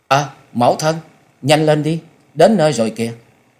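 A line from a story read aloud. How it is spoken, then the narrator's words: Child's sudden call. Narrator (Vietnamese): Cậu bé Lâm Nhi chợt lên tiếng kêu lên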